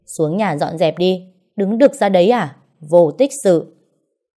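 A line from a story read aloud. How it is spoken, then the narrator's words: Scolding shout. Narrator (Vietnamese): mẹ chồng tôi quát lên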